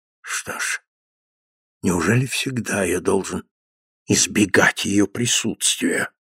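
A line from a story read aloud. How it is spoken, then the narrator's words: Muttering. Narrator (Russian): бормотал Редлоу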